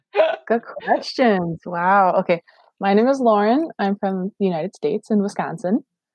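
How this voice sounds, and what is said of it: Regional Wisconsin American accent. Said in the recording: “I do have an accent, but that's just because it's regional.”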